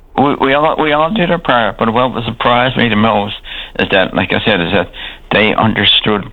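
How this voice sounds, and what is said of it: Strong Newfoundland townie accent. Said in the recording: “I'm a townie. I mean, with a strange townie accent”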